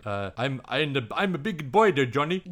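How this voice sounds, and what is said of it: Imitates another person's accented voice. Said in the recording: “had an accent, so it's like”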